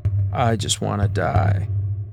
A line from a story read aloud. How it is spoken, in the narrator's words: Shayna groaned